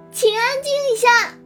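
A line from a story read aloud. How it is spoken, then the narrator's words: Loud, exasperated. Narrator (Chinese): 玉星锤被这群叽叽喳喳的声音吵得脑仁疼，深吸了一口气，大声说道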